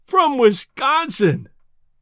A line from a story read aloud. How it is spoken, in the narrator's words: groaned Judkins